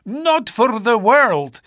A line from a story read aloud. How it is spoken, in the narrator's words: he cried